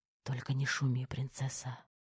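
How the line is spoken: Intimate whisper. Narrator (Russian): шепнул Терех в нежные губы

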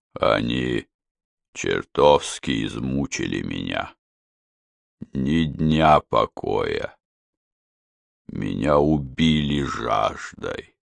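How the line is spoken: Old man speaking quietly. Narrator (Russian): старик тихо сказал

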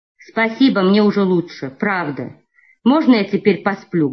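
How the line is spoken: Plain. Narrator (Russian): говорит он

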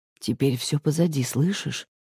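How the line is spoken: Quiet, into the ear. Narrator (Russian): тихо говорит он мне на ухо

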